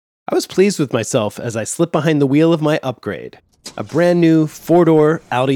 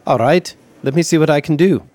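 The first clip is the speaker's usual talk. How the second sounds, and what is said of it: Imitated Irish brogue. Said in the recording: “imitate a brogue”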